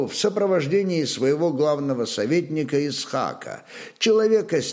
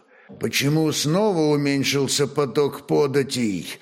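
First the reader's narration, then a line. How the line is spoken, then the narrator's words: Stern question. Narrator (Russian): сурово спросил Бек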